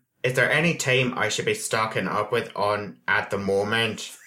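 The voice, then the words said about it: Put-on Northern Irish accent, slightly robotic. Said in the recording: “I did the terrible Irish accent ... I had to do a Northern Irish and the other part of Irish accent ... so that's Republic, and then I'll do Northern ... That's not bad. That's a little bit robotic.”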